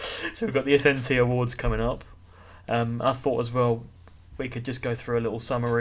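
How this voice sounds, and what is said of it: Usual voice. Nothing is said of it.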